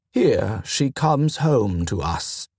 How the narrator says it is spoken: he murmured

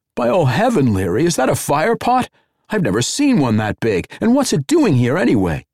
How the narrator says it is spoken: He blurted

